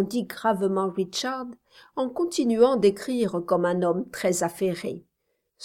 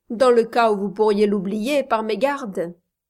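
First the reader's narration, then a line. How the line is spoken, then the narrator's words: Said with a sneer. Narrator (French): dit Trent en ricanant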